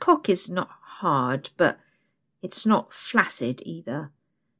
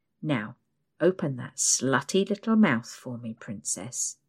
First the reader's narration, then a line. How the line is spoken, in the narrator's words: he mumbles